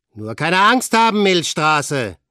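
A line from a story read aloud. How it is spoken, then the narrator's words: Calling out. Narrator (German): rief Frank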